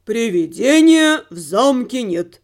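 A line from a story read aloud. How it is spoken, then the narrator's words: Deep voice, stressed word. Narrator (Russian): пробасил церковник, сделав особое ударение на слове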